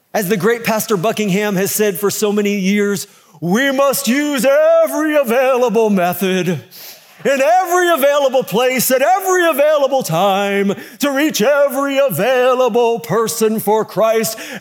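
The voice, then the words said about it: Impression of Pastor L.D. Buckingham. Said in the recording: “a pastor, Dr. L.D. Buckingham impersonation”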